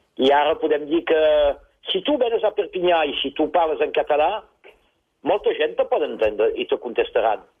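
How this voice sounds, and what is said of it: Slight French accent in Catalan. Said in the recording (Catalan): “accent una mica... Un accent una mica francès”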